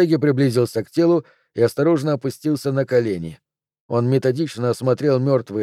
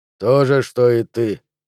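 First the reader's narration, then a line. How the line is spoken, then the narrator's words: Grumbling. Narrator (Russian): проворчал Бартеги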